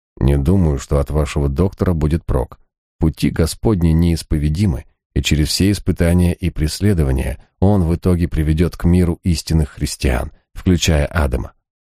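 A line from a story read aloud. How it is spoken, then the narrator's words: Quiet speech. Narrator (Russian): Мифон негромко проговорил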